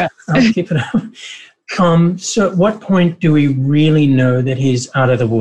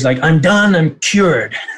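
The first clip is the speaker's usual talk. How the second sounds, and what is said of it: Donald Trump voice impression. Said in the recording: “That was your first Trump impression. That was really, the voice was excellent. That was good”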